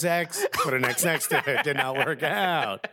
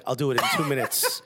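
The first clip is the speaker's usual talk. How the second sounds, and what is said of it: Elon Musk impression. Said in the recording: “Elon Musk is like... I don't know why that's his accent.”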